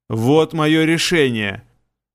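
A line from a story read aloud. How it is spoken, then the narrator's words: Growl. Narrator (Russian): еще раз прорычал надсмотрщик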